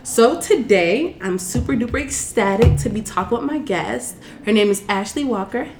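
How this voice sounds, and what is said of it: Slightly funny-sounding, stuffy voice. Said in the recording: “I have a cold, so if I sound a little bit funny”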